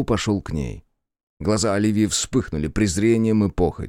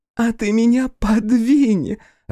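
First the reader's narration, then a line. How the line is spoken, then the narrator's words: Bursting into laughter. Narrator (Russian): расхохоталась она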